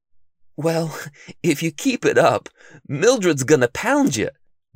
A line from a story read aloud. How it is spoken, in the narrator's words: Bookworm laughed